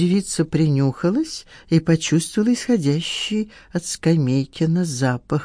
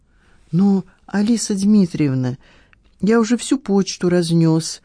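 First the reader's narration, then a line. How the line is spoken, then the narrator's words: Timid excuse. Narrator (Russian): попытался робко оправдаться Скамейкин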